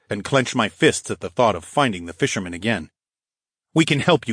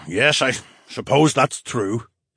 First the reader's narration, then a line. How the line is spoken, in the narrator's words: Phineas grumbled